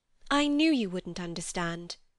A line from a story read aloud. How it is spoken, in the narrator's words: said Lucy quite crossly